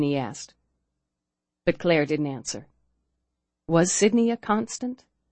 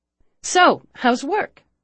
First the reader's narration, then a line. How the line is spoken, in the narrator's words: she asked brightly